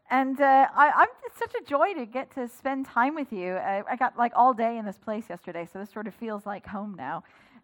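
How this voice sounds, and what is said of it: Southern Californian accent, British-influenced. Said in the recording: “The accent you're hearing is Southern California, having lived in the UK for 18 years”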